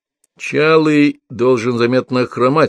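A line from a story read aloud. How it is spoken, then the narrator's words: Plain. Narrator (Russian): сказал Алексей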